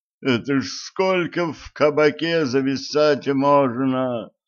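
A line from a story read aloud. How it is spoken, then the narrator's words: Groan. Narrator (Russian): Простонал Гриша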